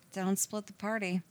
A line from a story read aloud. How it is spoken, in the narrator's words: she mumbled